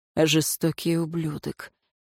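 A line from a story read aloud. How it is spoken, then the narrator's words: Grumbling under breath. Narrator (Russian): проворчал себе под нос советник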